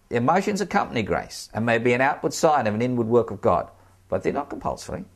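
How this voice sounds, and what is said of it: Stiff-upper-lip English accent. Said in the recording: “I come from a very sort of stiff upper lip kind of background, as you might be able to tell from my accent.”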